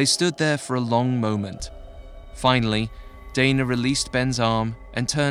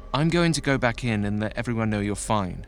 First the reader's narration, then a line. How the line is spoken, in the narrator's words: said